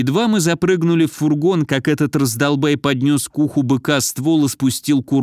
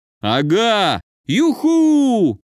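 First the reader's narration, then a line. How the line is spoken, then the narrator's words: Joyful yelling. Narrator (Russian): радостно орал Федя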